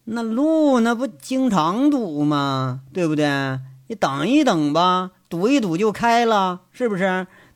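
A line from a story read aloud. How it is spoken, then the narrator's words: Dismissive, flat. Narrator (Chinese): 交通管理和指挥中心主任那都不以为然，淡淡的就说一句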